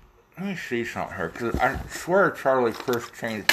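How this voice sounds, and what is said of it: Usual voice. Nothing is said of it.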